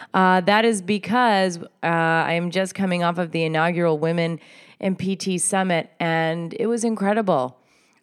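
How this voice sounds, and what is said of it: Voice strained and starting to go. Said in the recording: “you can probably hear my voice is starting to go a little bit”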